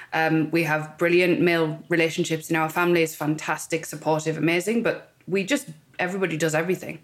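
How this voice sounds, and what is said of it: Northern English accent, Cumbrian. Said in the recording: “if you can tell by my accent, I grew up in the north of England, I'm right up in Cumbria”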